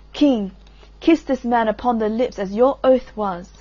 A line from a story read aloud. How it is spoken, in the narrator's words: Iseult cried